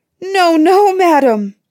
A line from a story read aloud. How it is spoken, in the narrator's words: cried the poor clerk of the kitchen, all in tears